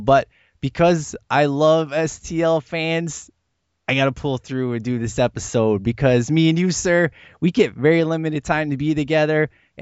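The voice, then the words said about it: Rough, unwell-sounding voice. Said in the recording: “As you can tell, my voice is terrible”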